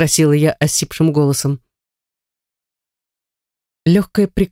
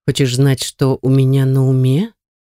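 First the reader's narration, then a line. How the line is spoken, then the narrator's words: Hoarse, very close. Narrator (Russian): прохрипел Артур над моими губами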